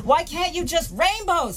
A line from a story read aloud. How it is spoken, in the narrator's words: he shouts